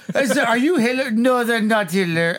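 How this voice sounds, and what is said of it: Put-on unidentifiable foreign accent. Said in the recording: “I don't know what that accent was. ... Not German. It's not German.”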